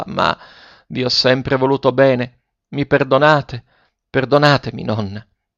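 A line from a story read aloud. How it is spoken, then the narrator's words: Faltering, trembling voice. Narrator (Italian): continuò Ferruccio a stento con la voce tremula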